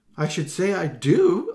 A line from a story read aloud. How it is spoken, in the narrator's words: Allegra exclaimed